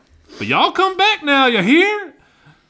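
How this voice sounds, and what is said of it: Imitated Southern accent. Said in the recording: “your impression of me ... that was my best impression ... you're from further south than I am”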